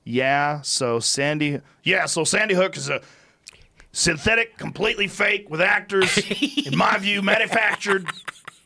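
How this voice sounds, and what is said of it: Imitates another person's voice. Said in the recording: “You actually nailed that impression.”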